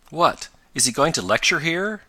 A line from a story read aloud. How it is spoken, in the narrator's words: cried Ned